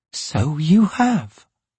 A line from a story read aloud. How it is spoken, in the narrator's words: said quietly